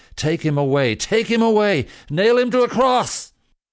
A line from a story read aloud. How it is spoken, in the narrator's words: They yelled